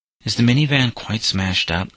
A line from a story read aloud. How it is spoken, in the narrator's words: asked Patrick timidly